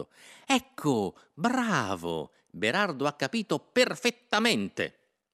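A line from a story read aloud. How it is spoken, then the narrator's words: Satisfied exclamation. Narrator (Italian): esclamò Innocenzo soddisfatto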